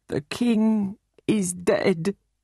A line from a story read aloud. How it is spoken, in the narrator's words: said mournfully